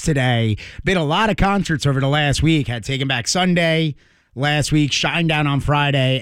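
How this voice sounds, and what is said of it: Slightly hoarse voice. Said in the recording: “Apologize for my voice being a little hoarse”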